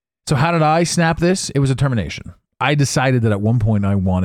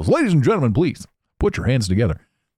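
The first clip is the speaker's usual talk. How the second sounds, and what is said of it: Announcer voice. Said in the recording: “I have a good announcer voice.”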